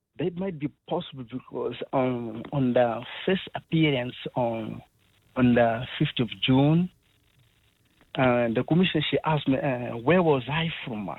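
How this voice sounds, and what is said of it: Clearly non-South African accent. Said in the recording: “your accent is very clearly non-South African”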